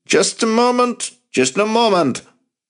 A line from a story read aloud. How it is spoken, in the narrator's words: He could hear his father scrambling down the stairs, shouting